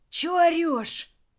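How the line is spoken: Displeased wheeze, local man. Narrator (Russian): абориген недовольно сипел

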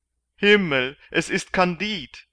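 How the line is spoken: Galley slave calling out. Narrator (German): rief der eine der Galeerensklaven

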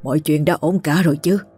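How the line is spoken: Old man's trembling question. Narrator (Vietnamese): Lão run run hỏi

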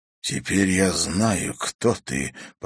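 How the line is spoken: Shocked breathy exhale. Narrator (Russian): потрясенно выдохнул

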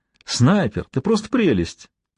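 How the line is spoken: Laughing out loud. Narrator (Russian): расхохотался

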